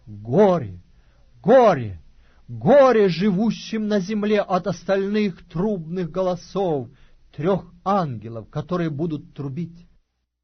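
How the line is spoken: Loud angel's voice. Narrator (Russian): одного ангела, говорящего громким голосом

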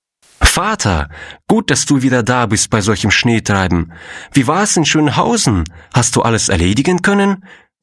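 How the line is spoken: Young girl calling out. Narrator (German): rief ein junges Mädchen

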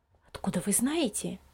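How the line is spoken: Low-voiced question. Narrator (Russian): вполголоса спросила мама Лиза

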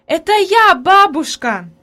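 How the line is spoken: Joyful shout. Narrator (Russian): закричала обрадованно Хайди

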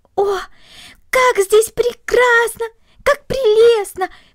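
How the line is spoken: Delighted exclamation. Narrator (Russian): воскликнула Корнелли, полное восхищение

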